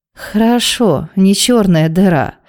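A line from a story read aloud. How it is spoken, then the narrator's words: Sleepy. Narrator (Russian): сонно отозвалась Вероника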